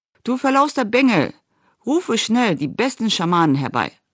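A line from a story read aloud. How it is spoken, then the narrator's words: Called out. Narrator (German): rief Akkan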